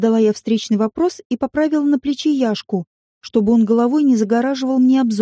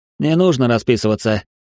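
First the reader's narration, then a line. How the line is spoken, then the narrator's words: Amused snort. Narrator (Russian): хмыкнул чему-то своему курьер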